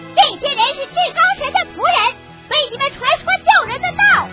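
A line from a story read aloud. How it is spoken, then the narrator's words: Shouting. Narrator (Chinese): 喊着说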